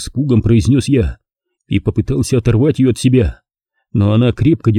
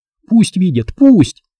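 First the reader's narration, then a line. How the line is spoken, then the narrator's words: Babbling. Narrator (Russian): продолжала лепетать она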